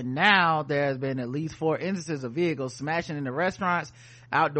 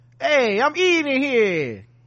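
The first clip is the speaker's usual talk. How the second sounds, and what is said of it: Put-on New York accent. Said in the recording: “That's my New York accent.”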